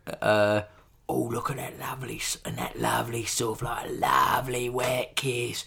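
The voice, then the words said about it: Imitates another person's voice. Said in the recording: “I sound like my cousin, MasterChef there, one of the MasterChef guys.”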